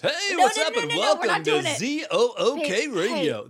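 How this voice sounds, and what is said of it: Loud radio announcer voice. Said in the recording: “I did a radio announcer voice ... it's a volume issue for sure”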